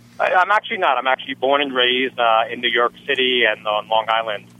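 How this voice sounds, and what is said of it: Slight New York accent. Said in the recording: “You don't sound like you're from Florida... You still have an accent... Still have an accent... there's always a little New York inside of me”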